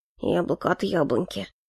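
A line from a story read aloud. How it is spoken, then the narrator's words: Muttering. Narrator (Russian): пробормотал Эльфорте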